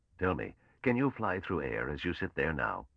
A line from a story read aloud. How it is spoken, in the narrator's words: Mallow said calmly